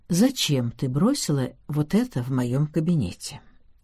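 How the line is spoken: Quiet. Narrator (Russian): я тихо произнес

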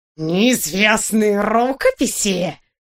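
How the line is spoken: Hoarse delighted exclamation. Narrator (Russian): в восторге сипло вскричал агент 013, с горящими глазами

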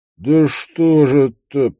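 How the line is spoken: Moaning. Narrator (Russian): простонал Шапка

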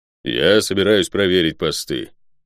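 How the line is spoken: Low booming drone. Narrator (Russian): прогудел Водор

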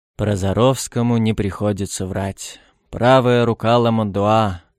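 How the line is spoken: Deep sigh. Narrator (Russian): он глубоко вздохнул

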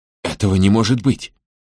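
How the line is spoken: Hoarse wheeze. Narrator (Russian): прохрипел он

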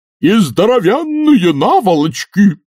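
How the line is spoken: Furious yell. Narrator (Russian): заорал старший Ренглер и в ярости

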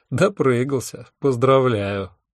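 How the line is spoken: Mocking, to oneself. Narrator (Russian): насмешливо сказал я себе

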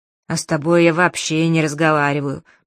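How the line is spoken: Grumbling, fiery creature. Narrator (Russian): проворчало невероятное огненное создание

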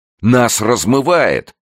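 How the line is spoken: Exclamation. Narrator (Russian): воскликнул Николай

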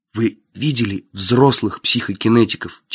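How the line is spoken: Quiet question. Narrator (Russian): тихо спросил я

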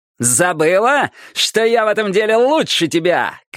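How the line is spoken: Shout. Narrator (Russian): крикнул он

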